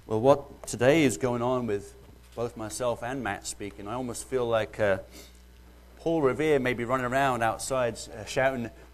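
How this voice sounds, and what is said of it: Mellowed British accent. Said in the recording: “excuse my British accent ... I've been here 12 years now, and it's mellowed some”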